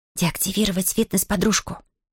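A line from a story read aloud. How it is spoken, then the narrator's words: Whispered command. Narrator (Russian): шепотом приказала Зия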